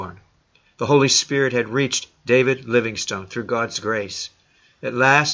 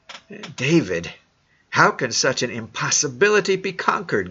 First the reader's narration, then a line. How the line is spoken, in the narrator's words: gasped his father, Neil